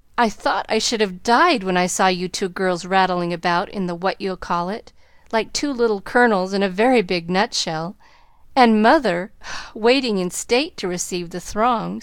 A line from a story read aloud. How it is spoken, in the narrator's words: sighed Joe, quite spent with laughter